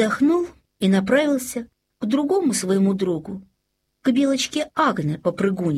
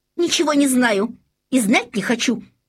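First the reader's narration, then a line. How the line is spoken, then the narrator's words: Angry female hare. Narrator (Russian): сердито ответила зайчиха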